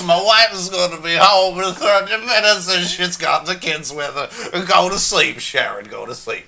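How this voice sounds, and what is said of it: Imitates another person's voice. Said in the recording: “pretty that, good impression.”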